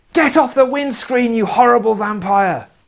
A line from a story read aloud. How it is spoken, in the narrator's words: The other one yelled angrily